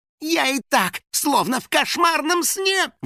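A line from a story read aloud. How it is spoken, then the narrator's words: Howling. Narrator (Russian): взвыл Финик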